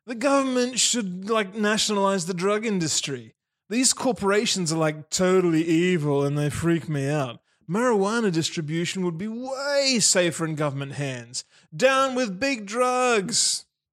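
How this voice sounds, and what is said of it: Stoner character voice. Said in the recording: “I should have been doing a voice for that ... a stoner brother after obnoxiously puffing some Maxtopian grass smoke in your face”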